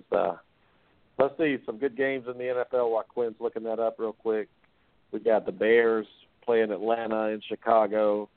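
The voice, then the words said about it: Voice congested from a cold. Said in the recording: “I'm sorry, guys. I have a cold tonight”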